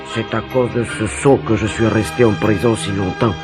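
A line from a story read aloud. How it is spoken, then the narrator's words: Murmured. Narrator (French): murmura-t-il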